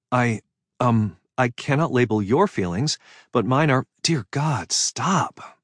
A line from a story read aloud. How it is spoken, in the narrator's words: I groaned, unable to take any more of this